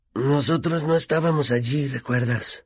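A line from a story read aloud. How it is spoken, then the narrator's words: Whispered. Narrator (Spanish): le susurró Harry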